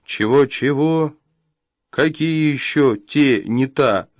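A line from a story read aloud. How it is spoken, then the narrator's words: Laughing. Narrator (Russian): засмеялся Элиас Корк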